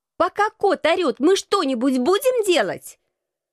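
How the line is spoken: Shouting. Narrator (Russian): прокричала я Алексу

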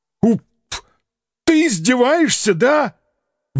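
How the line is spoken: Straining howl. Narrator (Russian): Взвыл уже на пределе голосовых связок

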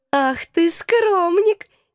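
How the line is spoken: Giggling. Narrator (Russian): хихикала

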